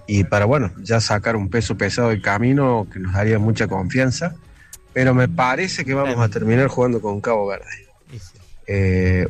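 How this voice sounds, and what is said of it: Regional accent from Villa María. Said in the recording (Spanish): “cuando vi la tonada, cuando escuché la tonada, dije: este es de Villa María”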